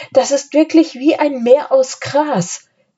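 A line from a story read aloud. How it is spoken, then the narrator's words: Calling up from below. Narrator (German): rief Anne von unten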